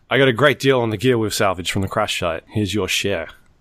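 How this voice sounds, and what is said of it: Put-on Australian accent. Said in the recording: “what accent am I putting on? Like, is this an Australian ... Australian ... Australian mercenary.”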